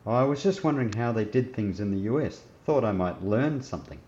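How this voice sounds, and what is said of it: Australian accent. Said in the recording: “Your accent. It doesn't sound English. ... my mother is from Sydney ... such a different accent ... Because I'm an Aussie?”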